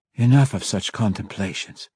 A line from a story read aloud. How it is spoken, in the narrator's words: Malice whispered to herself, exhausted